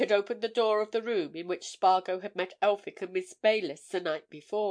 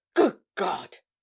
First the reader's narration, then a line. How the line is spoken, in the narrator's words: he cried